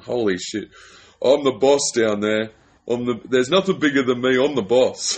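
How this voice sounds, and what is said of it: Thick accent, bro-dude impression. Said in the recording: “that thick accent”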